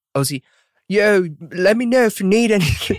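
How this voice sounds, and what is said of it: Poor put-on Australian accent. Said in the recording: “in his Aussie accent ... Sorry, that's horrible. ... My Aussie accent's awful. Is that British?”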